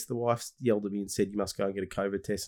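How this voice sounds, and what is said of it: Nasal, congested voice. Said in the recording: “my voice sounds a bit funny, a bit nasally. I've had a cold.”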